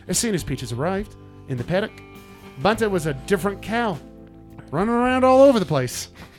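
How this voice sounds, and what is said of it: Put-on New Zealand accent. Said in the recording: “You do a great New Zealand accent, by the way. ... Or Australian, whatever it is.”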